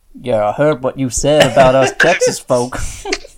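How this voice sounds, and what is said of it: Put-on Texan accent. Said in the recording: “Texas accent.”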